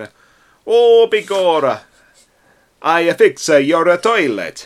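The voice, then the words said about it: Exaggerated, poor mock Italian accent. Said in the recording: “my Italian accent sounds like Bela Lugosi... If there are any Italians out there, I'm sorry.”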